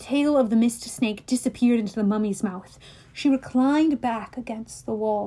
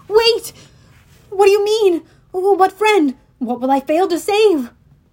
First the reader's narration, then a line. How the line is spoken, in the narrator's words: I cried